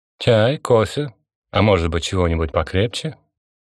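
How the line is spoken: Tired, failed ironic tone. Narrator (Russian): Константин попытался произнести эти слова ироническим тоном, но то ли от усталости, то ли от чего другого, фраза получилась двусмысленной

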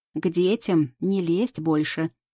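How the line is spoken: Stern demand. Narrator (Russian): строго требует Марина и кидает через плечо

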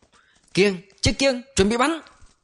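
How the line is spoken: Shouting, voice cracking. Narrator (Vietnamese): hòa hét lạc cả giọng

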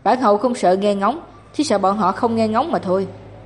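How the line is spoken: Sneering. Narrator (Vietnamese): Tiết Linh Bích cười khẩy

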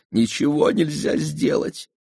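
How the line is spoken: Sobbing. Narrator (Russian): прорыдала

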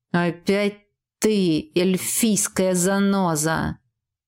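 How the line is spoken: Venomous words through teeth. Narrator (Russian): ядовито процедил Джет

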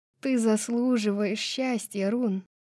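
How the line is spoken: Hoarse. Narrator (Russian): хрипло произнесла она

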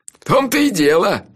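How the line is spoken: Laughing. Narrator (Russian): рассмеялся Анчифа

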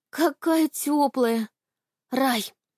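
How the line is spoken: Sighing. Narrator (Russian): вздохнула Аня

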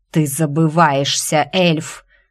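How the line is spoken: Thundering dragon voice. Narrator (Russian): прогремел голос дракона

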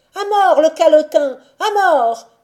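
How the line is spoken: Child yelping. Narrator (French): glapit un enfant

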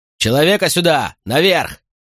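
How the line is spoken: Shout over shoulder. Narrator (Russian): крикнул Катон через плечо

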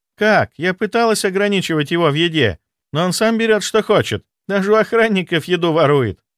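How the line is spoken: Laughing sister. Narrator (Russian): рассмеялась сестра

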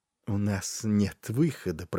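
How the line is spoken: Muttered. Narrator (Russian): пробормотал Варис

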